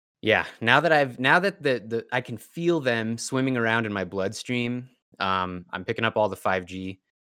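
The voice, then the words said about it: Slightly hoarse, strained voice. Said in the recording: “my voice is a little shot from yelling at kids all day ... if I sound a little bit hoarse”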